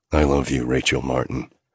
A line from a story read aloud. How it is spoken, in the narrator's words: I mumbled against her lips